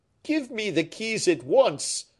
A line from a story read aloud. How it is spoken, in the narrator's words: cried Fouquet